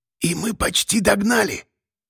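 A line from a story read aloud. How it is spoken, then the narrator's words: Whispered. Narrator (Russian): прошептал Тулуш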